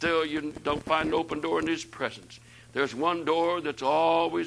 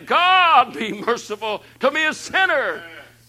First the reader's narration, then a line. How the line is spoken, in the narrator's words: cried